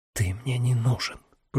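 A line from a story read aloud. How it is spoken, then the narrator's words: Whisper. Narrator (Russian): прошептал он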